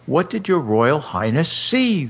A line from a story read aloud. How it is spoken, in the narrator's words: they cried